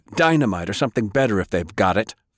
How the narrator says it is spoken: Francis snapped

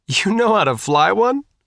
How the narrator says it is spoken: asked, somewhat hysterically

